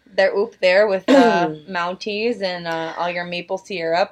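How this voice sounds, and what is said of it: Put-on Canadian accent. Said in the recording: “a superior Canadian accent”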